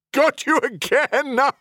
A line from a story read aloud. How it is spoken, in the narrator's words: Heliox said with a full-on laugh